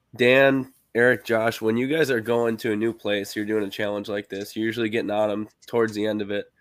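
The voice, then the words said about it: Sick, strained voice that may crack. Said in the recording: “I'm really sick. My voice is kind of going here. So if my voice cracks”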